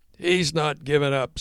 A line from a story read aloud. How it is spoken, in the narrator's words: shouted Tom